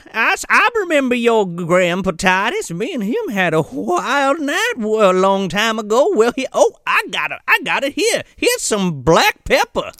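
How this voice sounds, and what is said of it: Southern Belle accent. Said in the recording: “she's got that Southern Belle accent going”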